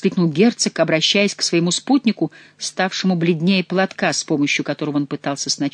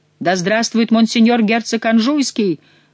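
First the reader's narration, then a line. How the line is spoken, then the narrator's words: Strained shout. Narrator (Russian): крикнул Монсоро, с огромным усилием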